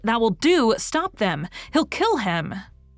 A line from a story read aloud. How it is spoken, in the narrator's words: People shouted